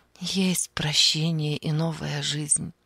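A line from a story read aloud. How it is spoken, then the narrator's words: Soft. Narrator (Russian): мягко сказала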